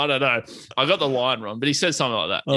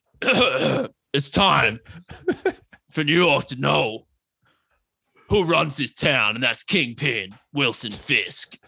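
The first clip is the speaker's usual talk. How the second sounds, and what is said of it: Imitates a villain character's voice. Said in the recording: “Do your best Kingpin voice. ... That's my voice. ... Kingpin accurate.”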